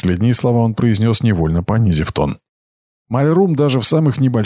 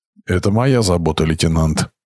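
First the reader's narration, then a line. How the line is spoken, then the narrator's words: Gloomy reply. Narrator (Russian): мрачно ответил Айрат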